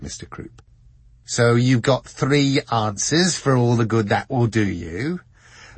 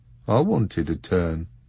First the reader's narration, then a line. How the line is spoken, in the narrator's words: muttered Mr